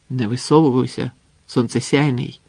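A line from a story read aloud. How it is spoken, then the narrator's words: Alarmed exclamation. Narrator (Ukrainian): стривожено вигукнув Юрджі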